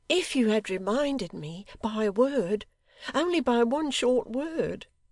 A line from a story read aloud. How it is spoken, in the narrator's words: sobbed Dolly, clinging yet closer to him